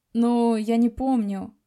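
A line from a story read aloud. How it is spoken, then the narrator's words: Sighing, evasive. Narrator (Russian): вздохнул и вновь попытался уйти от ответа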